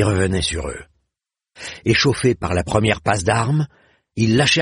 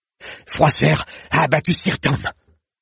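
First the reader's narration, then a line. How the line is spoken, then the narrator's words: Breathless utterance. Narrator (French): lâcha Blancandin dans un souffle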